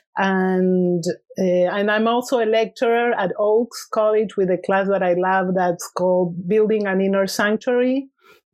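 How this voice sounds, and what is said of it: Argentine accent in English. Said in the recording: “I'm from Argentina, if you hear an accent”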